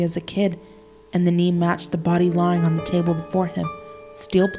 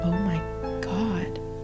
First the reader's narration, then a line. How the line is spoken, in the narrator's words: I whisper